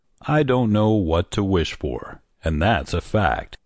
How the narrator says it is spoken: he said slowly

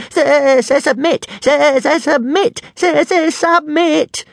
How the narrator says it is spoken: at the top of his voice

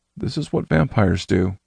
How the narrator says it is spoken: Ellis murmured

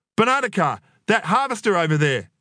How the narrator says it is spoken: yelled Adam

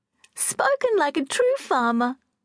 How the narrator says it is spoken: laughed Catherine

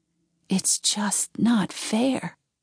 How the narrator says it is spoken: whispered

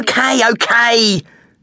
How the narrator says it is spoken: She yelled

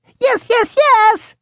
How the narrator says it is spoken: I answered, wishing that he could hear more than just the usual squeak, squeak, squeak humans hear

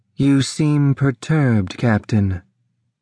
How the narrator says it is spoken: Solyndra said in a monotone characteristic of her species

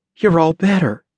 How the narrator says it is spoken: breathed

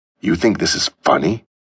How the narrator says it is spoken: snarled

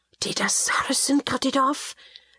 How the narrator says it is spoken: Gilles breathed, his eyes round

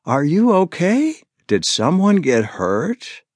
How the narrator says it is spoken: her voice pitching higher

